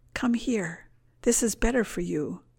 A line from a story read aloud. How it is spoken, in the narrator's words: Every temptation whispers